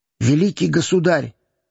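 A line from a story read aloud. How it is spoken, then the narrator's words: Whisper. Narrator (Russian): шепнул опять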